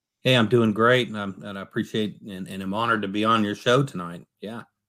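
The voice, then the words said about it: Tennessee Southern accent. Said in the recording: “that Tennessee accent”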